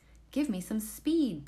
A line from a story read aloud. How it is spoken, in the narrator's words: exclaimed